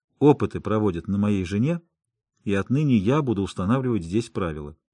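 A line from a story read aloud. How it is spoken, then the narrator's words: Plain. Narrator (Russian): сказал я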